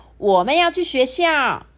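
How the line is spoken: Loud. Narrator (Chinese): 史努豆就大声说

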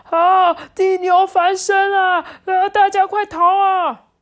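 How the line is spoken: Older animals shouting loudly. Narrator (Chinese): 其中几只年纪比较大的，嘴里还大声的叫着

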